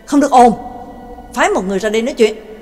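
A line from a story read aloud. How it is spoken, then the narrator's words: Sharp, snapping. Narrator (Vietnamese): Bảo Tàng liền gắt lên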